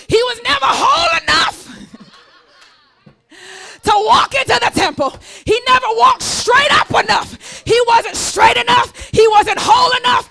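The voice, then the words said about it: Preaching voice. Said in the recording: “preacher voice”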